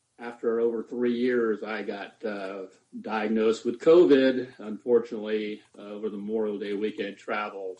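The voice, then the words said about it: Raspy, hoarse voice. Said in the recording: “Please bear with my little raspy voice.”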